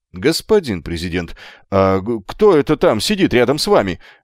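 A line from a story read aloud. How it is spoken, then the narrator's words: Sharp question. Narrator (Russian): резко спросил Далдоун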